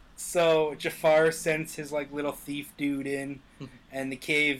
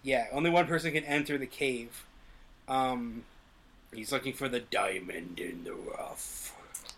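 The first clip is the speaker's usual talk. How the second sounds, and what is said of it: Impression of the Cave of Wonders. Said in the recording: “Good impression. ... Yeah, that was pretty good.”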